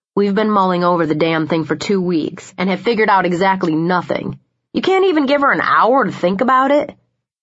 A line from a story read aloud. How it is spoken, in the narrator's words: Liam said, his tone sharp